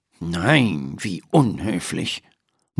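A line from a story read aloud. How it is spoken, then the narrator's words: Murmured. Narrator (German): murmelt Dr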